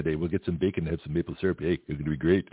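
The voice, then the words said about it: Exaggerated Canadian accent. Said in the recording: “maybe I should speak in my Canadian accent.”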